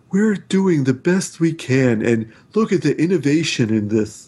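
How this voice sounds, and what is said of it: Imitates another person's voice. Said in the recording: “my Tim Cook impression”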